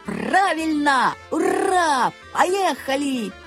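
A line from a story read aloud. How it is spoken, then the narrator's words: Loud yell. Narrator (Russian): Александр Семенович тоже завопил во все горло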